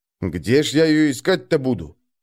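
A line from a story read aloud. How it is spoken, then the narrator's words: Grumbling. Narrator (Russian): проворчал Нойда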